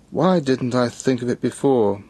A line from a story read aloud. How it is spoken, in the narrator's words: he exclaimed, slapping his forehead with cheerful vexation